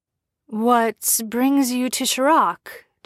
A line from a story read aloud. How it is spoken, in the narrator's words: Jensen asked nervously